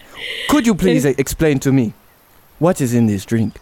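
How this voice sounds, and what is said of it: Put-on African accent. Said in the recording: “I will do the Wakandan accent”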